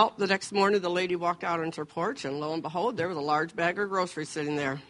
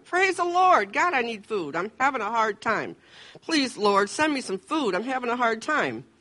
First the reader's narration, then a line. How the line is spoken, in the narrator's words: she shouted